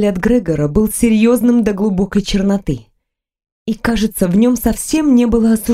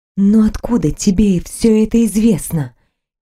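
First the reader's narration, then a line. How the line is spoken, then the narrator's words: Quiet question. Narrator (Russian): тихо спросила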